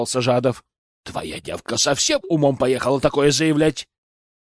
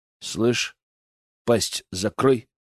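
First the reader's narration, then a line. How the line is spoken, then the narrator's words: Menacing, through gritted teeth. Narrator (Russian): процедил я с угрозой в голосе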